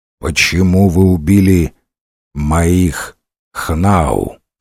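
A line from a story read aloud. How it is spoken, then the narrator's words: Plain. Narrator (Russian): спросил он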